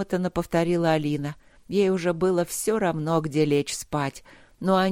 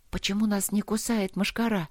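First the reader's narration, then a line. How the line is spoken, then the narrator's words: Whispered question. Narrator (Russian): шепотом спросила Алина у лорда Трота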